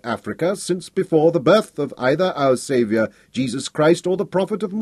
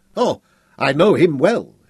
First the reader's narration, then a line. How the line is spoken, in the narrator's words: exclaimed